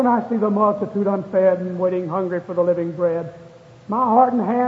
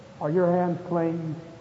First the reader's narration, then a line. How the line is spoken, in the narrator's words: Gently reproving, a kind voice said